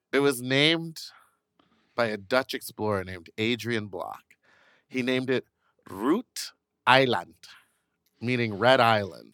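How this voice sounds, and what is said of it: Put-on Dutch accent. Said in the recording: “I love your Dutch accent.”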